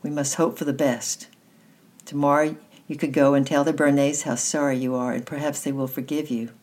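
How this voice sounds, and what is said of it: Gentler, softer voice. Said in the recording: “in a gentler voice”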